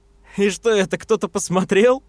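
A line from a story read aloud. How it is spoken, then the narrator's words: After laughing. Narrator (Russian): спросил он, отсмеявшись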